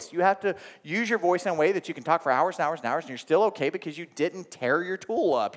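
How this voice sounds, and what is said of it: Thick Oklahoma accent. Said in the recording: “you think my accent is thick now ... I was ... from I know Oklahoma ... beat the okie out of me”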